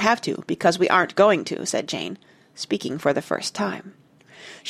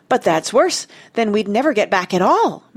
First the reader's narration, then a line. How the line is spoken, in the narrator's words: Martha cried, getting excited